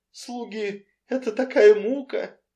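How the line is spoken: Mournful tone. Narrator (Russian): скорбным тоном произнесла миссис Фейдминфиш, обращаясь к миссис Ривз

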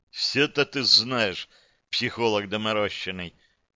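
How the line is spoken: Sad wry chuckle. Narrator (Russian): Он грустно усмехнулся

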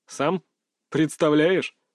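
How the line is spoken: Chuckling laugh. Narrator (Russian): хохотнул Салтыков

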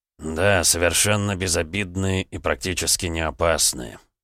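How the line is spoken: Hostile, through gritted teeth. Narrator (Russian): процедил он, глядя на мага с неприязнью

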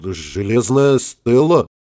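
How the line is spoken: Cough, uncertain mutter. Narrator (Russian): кто-то кашлянул и неуверенно пробормотал

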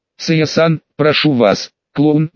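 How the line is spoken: Grumble. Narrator (Russian): буркнула Такаги

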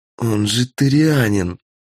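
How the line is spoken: Hissed through teeth, contemptuous. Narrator (Russian): сквозь зубы прошипела Настя, так, будто слово являлось ругательством

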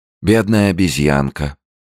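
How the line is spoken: Sighing. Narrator (Russian): вздохнула Холли

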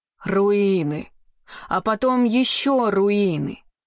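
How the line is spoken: Groan. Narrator (Russian): простонал все еще лежащий на земле Тай

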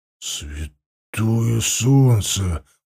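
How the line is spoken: Whisper. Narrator (Russian): прошептал

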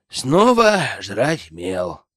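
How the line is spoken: Sigh. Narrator (Russian): вздохнул Зак

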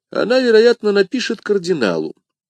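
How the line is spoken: Casual tone. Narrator (Russian): небрежным тоном ответил Атос

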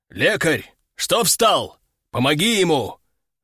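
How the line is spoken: Growling command. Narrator (Russian): рыкнул командир

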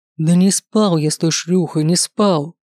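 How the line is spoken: Emotional exclamation. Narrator (Russian): Воскликнул на эмоциях

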